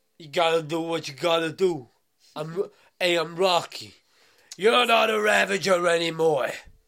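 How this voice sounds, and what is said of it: Sylvester Stallone impression. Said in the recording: “my Stallone impression.”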